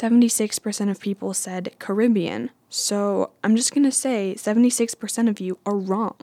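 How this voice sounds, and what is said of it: Usual voice. Nothing is said of it.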